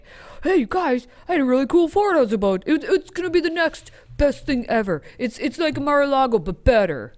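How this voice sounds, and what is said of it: Imitates another person's voice. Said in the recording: “That sounds like an actual Trump statement ... I can't do a Trump impersonation.”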